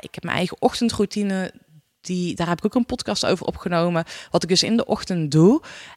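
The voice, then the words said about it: Brabant Dutch regional accent. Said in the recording (Dutch): “je hoort natuurlijk al waar ik ergens woon, omdat ik echt een Brabants accent heb”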